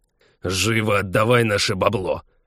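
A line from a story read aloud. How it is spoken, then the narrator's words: Impatient growl. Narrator (Russian): Нетерпеливо рыкнул второй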